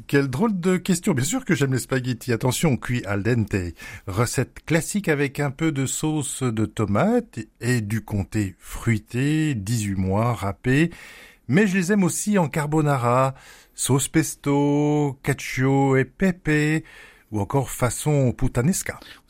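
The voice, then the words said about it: Put-on Italian accent. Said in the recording (French): “Vous avez pris votre plus bel accent italien”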